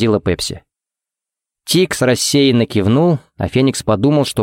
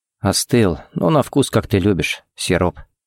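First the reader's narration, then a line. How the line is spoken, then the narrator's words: Quiet remark. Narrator (Russian): заметил тихо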